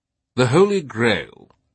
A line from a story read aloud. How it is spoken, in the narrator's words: Teabing said, his voice sermonic